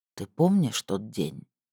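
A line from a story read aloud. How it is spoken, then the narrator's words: Quiet. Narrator (Russian): тихо произнес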